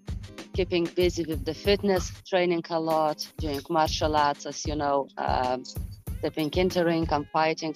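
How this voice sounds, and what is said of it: Irish accent. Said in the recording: “you have an Irish accent”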